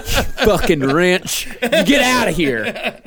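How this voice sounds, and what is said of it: Put-on Southern US accent. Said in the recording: “You just say it in a southern accent”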